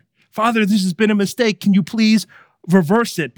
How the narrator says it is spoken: he pleads with the father

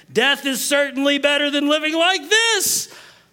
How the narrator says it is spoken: he exclaimed

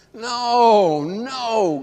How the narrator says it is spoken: groaned one of the seminarians inside the room

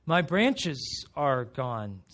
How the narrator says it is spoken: said the tree

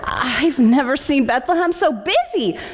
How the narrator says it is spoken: she exclaimed

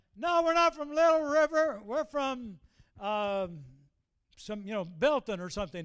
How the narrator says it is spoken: they holler out

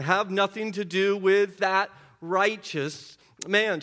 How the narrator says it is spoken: she says

